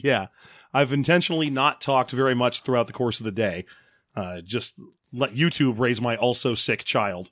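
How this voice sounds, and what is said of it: Hoarse, strained sick voice. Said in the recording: “I've had laryngitis for like 3 days now”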